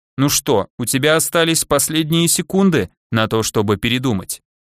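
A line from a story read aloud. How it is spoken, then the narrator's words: Muffled voice in head. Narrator (Russian): Глухо прозвучал в голове голос корабля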